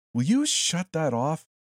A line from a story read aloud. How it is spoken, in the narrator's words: shouted a woman